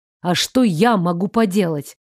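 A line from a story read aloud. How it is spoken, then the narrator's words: Angry interruption. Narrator (Russian): Зло оборвал меня Фредерик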